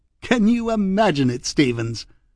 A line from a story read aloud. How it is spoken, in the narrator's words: laughed again